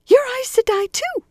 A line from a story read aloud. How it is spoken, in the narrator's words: the woman squeaked